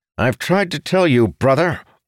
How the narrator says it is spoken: Arentil said harshly

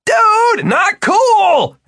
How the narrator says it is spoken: Martin yelled

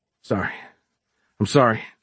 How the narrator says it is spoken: Giles gasped

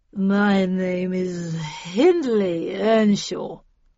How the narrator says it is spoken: slurred the drunk

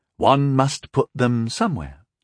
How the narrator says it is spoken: Rondal said smoothly

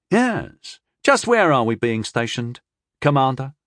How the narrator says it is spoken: asked Tyndall, happily

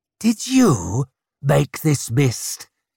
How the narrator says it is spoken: he snarled at the woman

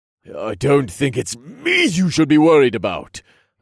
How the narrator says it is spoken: growled

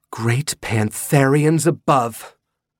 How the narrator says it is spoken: Jody said with a gasp

